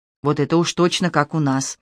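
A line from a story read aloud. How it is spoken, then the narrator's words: Quiet. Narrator (Russian): Арест Георгиевич произнес тихо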